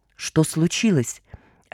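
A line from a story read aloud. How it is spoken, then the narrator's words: Soundless mouthed whisper. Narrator (Russian): одними губами прошептала она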